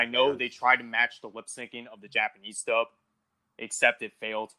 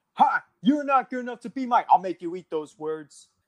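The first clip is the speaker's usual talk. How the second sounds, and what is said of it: Imitates a video game character's voice. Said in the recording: “mimicking everything and all the voice lines”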